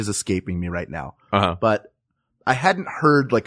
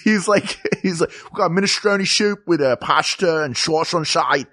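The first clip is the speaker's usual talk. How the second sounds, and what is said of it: Exaggerated Philly accent, S as SH. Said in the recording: “a really strong Philly accent ... That turning an S into an SH is like that is like a 10th level Philly accent ... This guy has attained Philly accent nirvana ... that's just a speech impediment”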